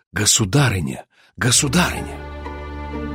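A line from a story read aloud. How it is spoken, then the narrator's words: Crowd whispering. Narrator (Russian): В толпе пробежал шепот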